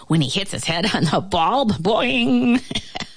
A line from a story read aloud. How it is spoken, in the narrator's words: The fly began to laugh